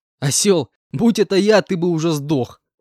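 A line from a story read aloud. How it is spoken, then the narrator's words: Laughing reply. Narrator (Russian): рассмеявшись, ответил я пареньку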